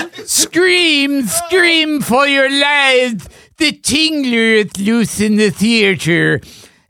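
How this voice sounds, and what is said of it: Vincent Price impression. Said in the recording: “Vincent Price. ... You forgot your impression.”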